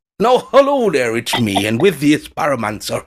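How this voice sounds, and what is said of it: Put-on Irish accent. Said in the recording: “Lovely Irish accent.”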